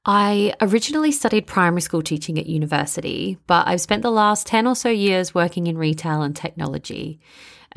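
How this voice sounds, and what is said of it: Broad Australian accent. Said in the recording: “I'm originally from Melbourne, Australia, which you can probably hear in my Bogan accent.”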